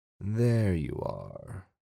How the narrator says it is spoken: the writer said, lowering his voice

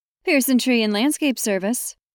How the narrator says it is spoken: Ange said through the phone in her upbeat and cheerful voice

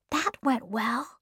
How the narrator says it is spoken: Anne whispered to Diana

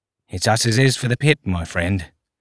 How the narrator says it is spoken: he said under his breath

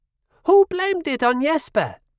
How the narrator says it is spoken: yelled

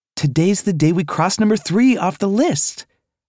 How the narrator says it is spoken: Anna exclaimed

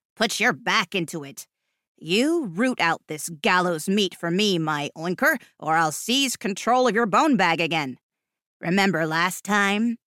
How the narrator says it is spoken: His sneer was palpable, like being spat on from the inside

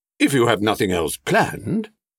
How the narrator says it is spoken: he added hastily

